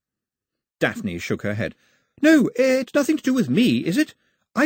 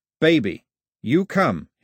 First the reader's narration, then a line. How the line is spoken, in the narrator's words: he said, his voice as firm as the grip